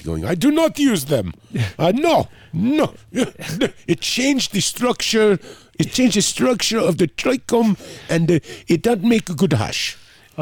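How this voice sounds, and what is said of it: Poor imitation of French accent. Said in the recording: “I fucked up his accent. ... Didn't do a good French.”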